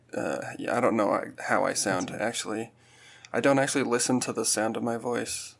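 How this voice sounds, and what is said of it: Raspy, gravelly voice. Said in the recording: “I am just coming over a cold right now, so that's why I sound maybe a little more velvety or raspy. ... A little gravelly.”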